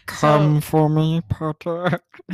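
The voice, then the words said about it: Snape character voice impression. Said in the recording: “that your Snape impression? ... This is my impression of Snape”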